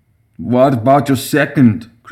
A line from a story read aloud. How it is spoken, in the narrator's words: Kruger slurred